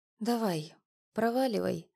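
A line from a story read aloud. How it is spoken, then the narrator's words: Hoarse voice. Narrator (Russian): осипшим голосом произнесла она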